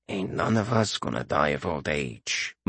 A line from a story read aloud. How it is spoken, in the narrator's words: muttered Uthe